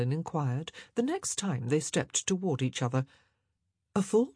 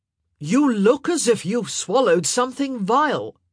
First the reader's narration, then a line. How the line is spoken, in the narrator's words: he said, loudly this time, for he'd clearly lost patience